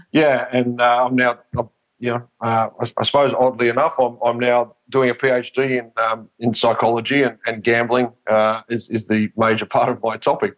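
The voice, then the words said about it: Australian accent. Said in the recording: “obviously my accent, I'm in Australia”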